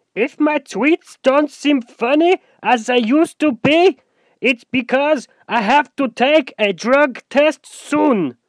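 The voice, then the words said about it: Bad put-on German accent. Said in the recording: “in a really unfunny accent ... That was terrible. That was supposed to be like a German accent”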